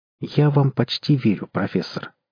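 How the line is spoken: Calm reply. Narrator (Russian): спокойно ответил Кудыкин

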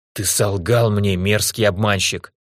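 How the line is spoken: Fierce hiss. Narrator (Russian): свирепо прошипел я

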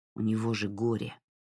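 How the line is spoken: Grumbling. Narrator (Russian): проворчал Джей Ар

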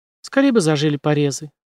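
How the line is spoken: Sigh. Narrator (Russian): вздохнула Джейн

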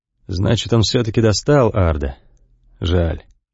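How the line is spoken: Quiet, as if to himself. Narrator (Russian): Павел Васильевич тихо, будто сам себе говорит

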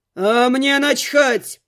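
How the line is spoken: Roar. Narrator (Russian): взревел Глун

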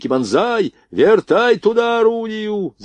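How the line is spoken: Shouting. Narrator (Russian): закричал Блохин

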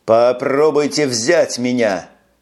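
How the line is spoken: Defiant shout. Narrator (Russian): Снова выкрикнул он пустому берегу

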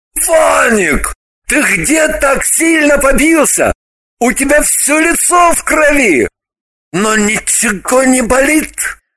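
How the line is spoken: Terrified shout. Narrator (Russian): тот обмер от страха и закричал

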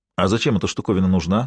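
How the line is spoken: Plain question. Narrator (Russian): спросил Эндер

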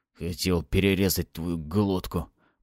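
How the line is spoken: Hoarse old man's rasp. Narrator (Russian): прохрипел старик

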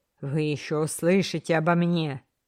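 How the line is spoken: Grumbling through split lips. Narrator (Russian): Кастанеда проворчал сквозь разбитые губы

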